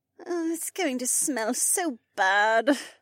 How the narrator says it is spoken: Becca groaned

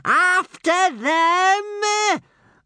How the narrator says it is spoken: screaming at the top of his voice

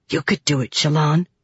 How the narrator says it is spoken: Wakim hissed at her

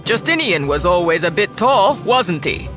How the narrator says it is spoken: he shouted

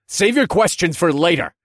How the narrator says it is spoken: I shouted

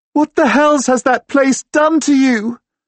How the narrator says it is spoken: She cries

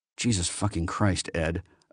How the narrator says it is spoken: Acuna muttered under his breath

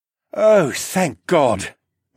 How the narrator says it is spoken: Mateo breathed

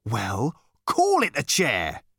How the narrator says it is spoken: he said testily

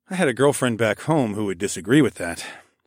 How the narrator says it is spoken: I sighed

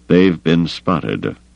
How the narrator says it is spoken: Carda said grimly

